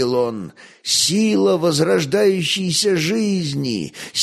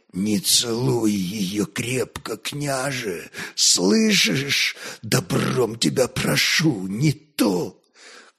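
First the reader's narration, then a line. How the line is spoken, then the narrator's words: Hollow, unfamiliar voice. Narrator (Russian): Глухо, чужим голосом проговорил Горецвет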